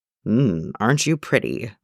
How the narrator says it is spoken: Bucky murmurs to Jason's dick

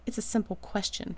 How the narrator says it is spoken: Rodney snaps, his face flushing a little

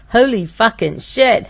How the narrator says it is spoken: howled at the top of his lungs

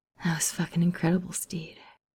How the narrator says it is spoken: Ed murmured against his skin

